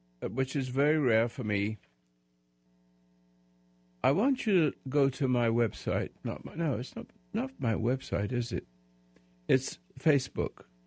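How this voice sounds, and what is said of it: Loud voice, sounds like a cold. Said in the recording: “I'm yelling because I have a little bit of a cold,”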